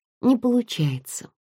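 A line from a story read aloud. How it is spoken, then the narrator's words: Sighing. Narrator (Russian): вздохнула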